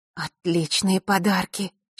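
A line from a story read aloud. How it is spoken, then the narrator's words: Happy breathy exhale. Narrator (Russian): счастливо выдохнула Василиса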